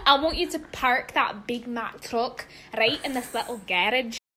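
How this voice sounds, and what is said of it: Sung lyrics in Scottish accent. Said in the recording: “singing WAP in a Scottish accent”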